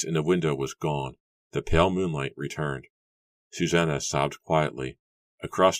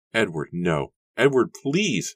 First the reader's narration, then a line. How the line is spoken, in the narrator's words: wailed